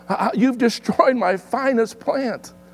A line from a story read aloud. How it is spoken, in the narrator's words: When the gardener had saw what the little girl had done, he exclaimed